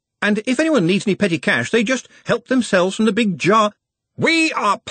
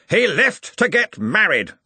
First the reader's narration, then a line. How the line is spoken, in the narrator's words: snapped Ridcully